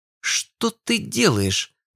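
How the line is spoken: Hiss. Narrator (Russian): зашипела Ив

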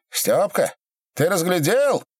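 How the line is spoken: Shout. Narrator (Russian): крикнул

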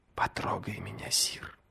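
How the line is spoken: Whispering in ear. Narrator (Russian): прошептала на ухо

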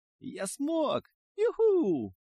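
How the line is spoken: Triumphant shout. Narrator (Russian): Парень с победным криком

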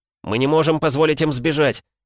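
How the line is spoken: Shouted. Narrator (Russian): закричал Игрорыцарь

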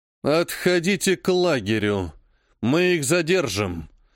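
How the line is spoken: Muttered through clenched teeth. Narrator (Russian): сквозь зубы пробормотал жрец

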